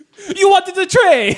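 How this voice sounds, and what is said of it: Put-on Italian accent. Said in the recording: “this is Italian accent.”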